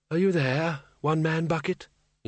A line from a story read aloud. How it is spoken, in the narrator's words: said softly